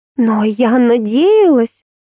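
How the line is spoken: Despairing exhale. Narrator (Russian): Выдохнула в отчаянии

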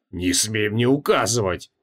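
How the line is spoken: Growled. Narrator (Russian): прорычал Креол

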